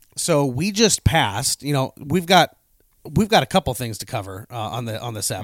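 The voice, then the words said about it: Voice still affected by illness. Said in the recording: “lost all sense of smell and taste for 4 days ... obviously you can hear in my voice. I'm not 100% yet”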